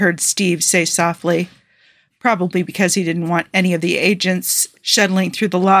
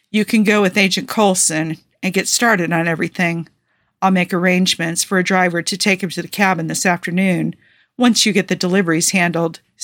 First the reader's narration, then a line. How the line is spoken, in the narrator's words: Steve told Coulson in a firmer voice